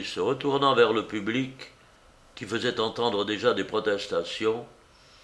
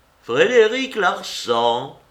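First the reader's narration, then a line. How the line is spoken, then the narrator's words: Ringing loud voice. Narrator (French): répondit d'une voix éclatante Rouletabille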